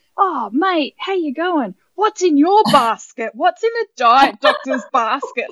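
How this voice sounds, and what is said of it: Put-on Australian accent. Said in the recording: “I'm totally put on the Australian sort of accent ... I was just doing this full on sort of”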